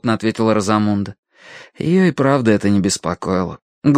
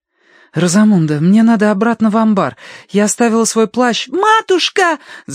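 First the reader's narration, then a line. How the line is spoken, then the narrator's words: Shouting. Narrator (Russian): закричала Агнес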